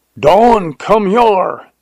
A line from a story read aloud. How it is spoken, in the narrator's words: yelled Jones